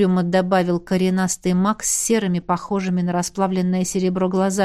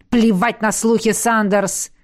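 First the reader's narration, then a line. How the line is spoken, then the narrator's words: Growling undertone. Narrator (Russian): В голосе дракона проскользнули рычащие нотки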